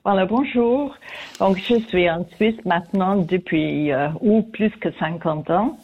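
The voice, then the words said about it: Foreign accent in French. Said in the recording (French): “comme vous pouvez entendre, j'ai toujours mon accent ... cet accent qu'on entend avec plaisir”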